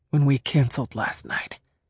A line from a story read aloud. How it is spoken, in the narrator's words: he said on a whisper